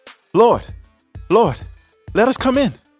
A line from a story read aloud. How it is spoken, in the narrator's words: the 5 foolish girls pleaded